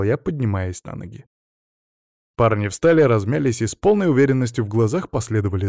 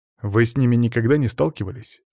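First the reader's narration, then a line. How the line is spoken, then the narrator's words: Plain. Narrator (Russian): спросил я парней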